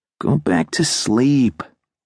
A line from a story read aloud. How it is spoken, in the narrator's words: said sleepily